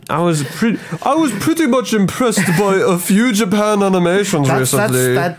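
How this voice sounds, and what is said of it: Exaggerated snobby mock Japanese accent. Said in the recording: “that was supposed to be like snobby? ... that sounded like you're doing a very terrible racist Japanese impression ... I was going for snobby”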